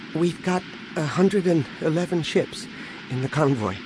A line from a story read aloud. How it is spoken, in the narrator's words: Anakin said, coming up behind his father nervously